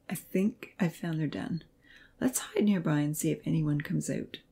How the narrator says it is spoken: he whispered

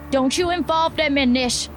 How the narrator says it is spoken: Blinky yelled

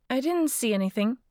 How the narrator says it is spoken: Mary said

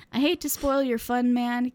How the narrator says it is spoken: Kickass said with a laugh and a self-confident grin of his own

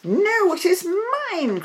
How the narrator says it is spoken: cried the lame one

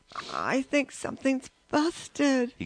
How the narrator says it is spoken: he gasped finally

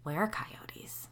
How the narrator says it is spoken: I whispered

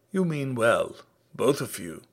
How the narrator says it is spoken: said Sada Kaur in an even voice

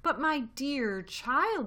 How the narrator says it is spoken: she cried

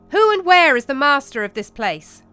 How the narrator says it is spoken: he stood up straight and called out loudly

